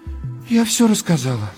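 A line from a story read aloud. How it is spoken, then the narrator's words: Sighing. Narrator (Russian): вздохнула Надежда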